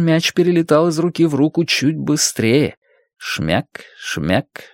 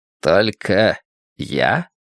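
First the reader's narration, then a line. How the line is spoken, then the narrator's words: Thoughtful voice. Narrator (Russian): спросил Большой Джим задумчивым голосом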